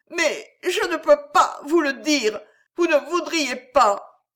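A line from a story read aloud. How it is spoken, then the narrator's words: Girl sobbing. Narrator (French): poursuivit la jeune fille entre ses sanglots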